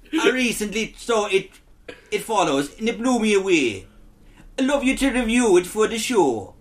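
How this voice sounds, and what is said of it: Inconsistent put-on accent. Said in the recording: “sound like a concussed Irishman ... This accent is all over the place”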